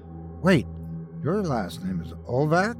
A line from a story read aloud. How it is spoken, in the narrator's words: Derek saying to Boris in a worried tone